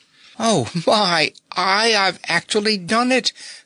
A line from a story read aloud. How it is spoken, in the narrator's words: quavered the goat girl